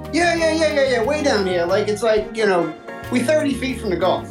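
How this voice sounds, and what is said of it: Southern Louisiana accent. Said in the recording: “He's got an accent ... A little further south ... So you're calling us from Louisiana.”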